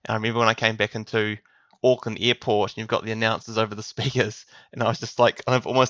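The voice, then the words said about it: New Zealand accent. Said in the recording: “It's funny hearing your voice from the point that, you know, it's very Kiwi.”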